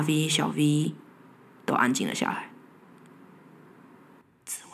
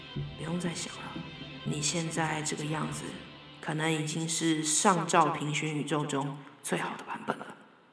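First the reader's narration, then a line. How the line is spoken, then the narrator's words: Soft, gentle. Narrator (Chinese): 大 V 轻声地说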